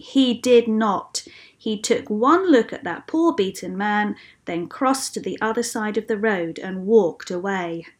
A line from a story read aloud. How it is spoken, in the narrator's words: said Jesus firmly